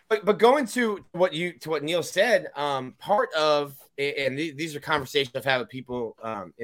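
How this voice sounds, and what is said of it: Usual voice. Nothing is said of it.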